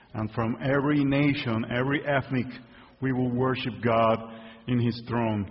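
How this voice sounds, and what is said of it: Spanish-speaker's accent in English. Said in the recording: “I usually preach in Spanish, that I hope my accent will not be a distraction”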